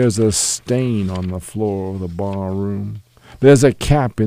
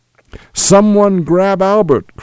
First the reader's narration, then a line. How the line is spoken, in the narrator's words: cried the steward